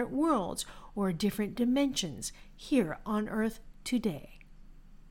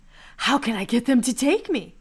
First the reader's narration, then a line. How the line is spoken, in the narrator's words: excitedly asked